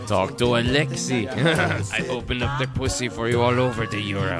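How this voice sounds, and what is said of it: Mock Eastern European accent. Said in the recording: “this creepy Eastern European foreigner ... With that accent?”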